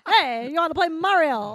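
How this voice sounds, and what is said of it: Mario impression. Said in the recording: “Hey, that's pretty good. Thanks. Was that you trying to do Mario, though?”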